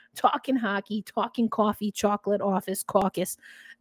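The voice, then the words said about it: Exaggerated New York accent. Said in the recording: “my New York accent started coming out”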